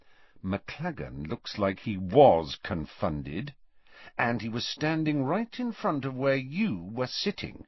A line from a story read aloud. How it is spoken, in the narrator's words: said Harry quietly